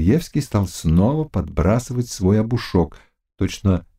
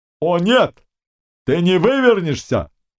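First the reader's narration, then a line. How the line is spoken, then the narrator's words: Shouted. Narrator (Russian): крикнул Харлам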